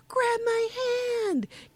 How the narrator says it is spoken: she yells to her sister

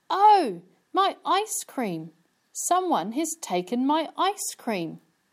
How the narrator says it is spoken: Suddenly, Amy cried

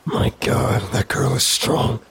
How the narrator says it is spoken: groaned Hector, who was struggling to his feet

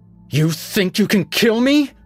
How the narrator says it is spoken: she spat

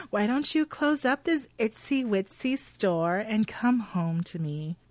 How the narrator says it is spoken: Connie tells Maynard in her best baby voice

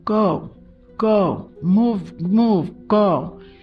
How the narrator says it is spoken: Chris running and screaming

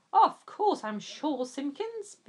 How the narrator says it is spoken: barked Slade

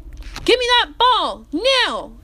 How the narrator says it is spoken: yelled the line judge

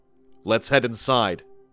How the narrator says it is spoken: he said

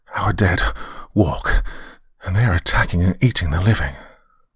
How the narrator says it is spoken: he gasped

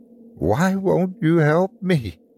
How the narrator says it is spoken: She whimpered

